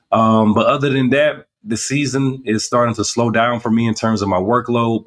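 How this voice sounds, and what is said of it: Deep, husky sick-sounding voice. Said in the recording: “As you can probably tell from my voice, I got a little bit of the Barry White still going on. There's something going around.”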